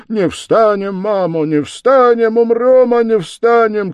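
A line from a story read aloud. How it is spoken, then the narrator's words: Crowd of men shouting. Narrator (Russian): кричали запорожцы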